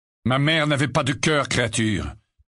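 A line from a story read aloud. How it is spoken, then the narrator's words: Curt, dry. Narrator (French): répondit sèchement Sirius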